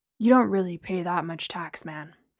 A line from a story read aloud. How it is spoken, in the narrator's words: Steve muttered